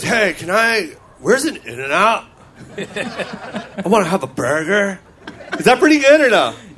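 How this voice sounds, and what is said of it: New Zealander faking an American surfer accent. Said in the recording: “you're copying an Australian or a New Zealander... Doing an American accent... I'm acting like an Australian, acting like a New Zealander in L.A. being a surfer”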